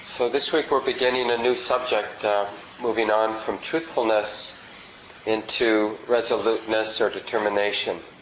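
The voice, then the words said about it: Strained voice, sounds like a cold. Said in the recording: “Sorry about my voice. I have a cold that I'm recovering from ... you might notice me struggling a little bit.”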